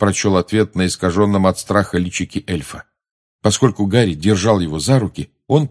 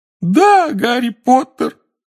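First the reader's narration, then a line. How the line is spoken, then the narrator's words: Wailing cry. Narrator (Russian): взвыл Добби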